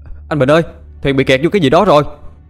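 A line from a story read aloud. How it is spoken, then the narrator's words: Shout. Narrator (Vietnamese): Lái tàu hét lên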